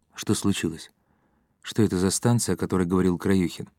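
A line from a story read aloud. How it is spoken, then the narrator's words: Low-voiced question. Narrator (Russian): Быков спросил вполголоса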